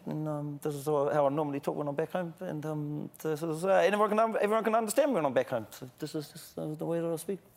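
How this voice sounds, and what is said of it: Broad mumbled New Zealand accent. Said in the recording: “unintelligible Kiwi? ... I'm talking to my normal accent ... So it's just mumbling. You're just mumbling.”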